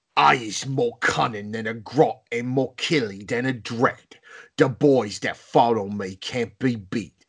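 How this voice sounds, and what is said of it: Orc character voice. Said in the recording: “the orc voice ... the biggest, baddest, and toughest orc”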